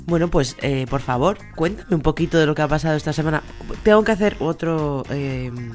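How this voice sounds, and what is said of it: Hoarse, cracking voice. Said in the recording (Spanish): “tengo la voz cada semana peor ... ya estoy afónica ... mira qué gallos”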